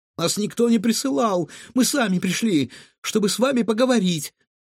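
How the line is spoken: Timid babbling. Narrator (Russian): пролепетала Илона

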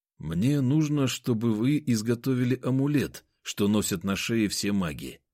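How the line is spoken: Plain. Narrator (Russian): ответил я

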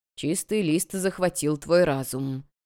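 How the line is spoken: Muttered. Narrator (Russian): пробормотал Ван Хо

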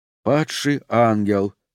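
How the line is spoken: Sighing. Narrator (Russian): вздохнул Оуэн

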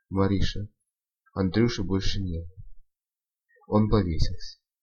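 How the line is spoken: Father, barely audible. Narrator (Russian): Отец выдал еле слышно

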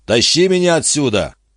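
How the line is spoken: Shouted. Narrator (Russian): Гарденер крикнул

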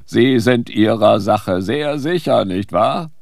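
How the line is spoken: Mocking. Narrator (German): spottete er

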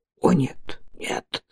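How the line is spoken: Whisper. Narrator (Russian): прошептал он

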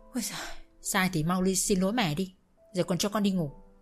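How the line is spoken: Sighing. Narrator (Vietnamese): Khanh thở dài nói

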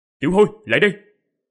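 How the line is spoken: Deep sharp command. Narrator (Vietnamese): Quỷ Lệ biến sắc mặt, trầm giọng quát

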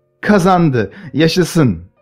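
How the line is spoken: Shouted. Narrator (Turkish): diye bağırdı

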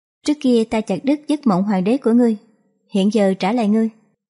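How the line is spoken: Smiling. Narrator (Vietnamese): Mộ hoàng tịch vẫn mỉm cười như trước

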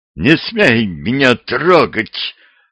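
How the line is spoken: Hissing. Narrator (Russian): зашипела колдунья

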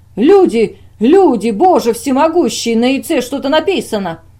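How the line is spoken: Sudden wild yelling. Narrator (Russian): вдруг он дико заорал

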